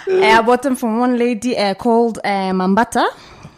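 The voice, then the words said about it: Put-on Nigerian accent. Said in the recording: “Nigerian accent ... I'll answer in that accent”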